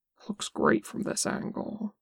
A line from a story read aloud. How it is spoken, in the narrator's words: Boston mutters